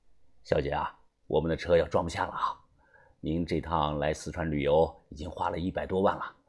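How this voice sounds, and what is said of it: Quiet, hushed speech. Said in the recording (Chinese): “小声的对他说道”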